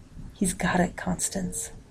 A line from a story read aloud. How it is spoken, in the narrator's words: Ted whispered